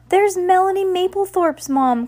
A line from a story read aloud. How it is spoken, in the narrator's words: cried Heidi